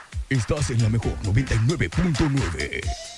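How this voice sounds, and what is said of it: Old-style radio announcer voice. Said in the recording (Spanish): “vos de locutor, güey ... de locutor acá, bien ... de los de antes, ¿no?”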